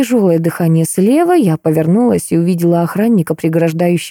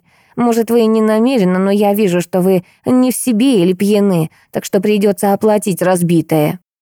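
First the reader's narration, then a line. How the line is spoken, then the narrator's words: Woman's nasal voice. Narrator (Russian): прогнусавила женщина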